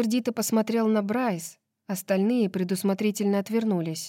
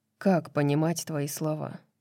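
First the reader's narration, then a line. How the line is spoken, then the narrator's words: Quiet question. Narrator (Russian): тихо спросил Хант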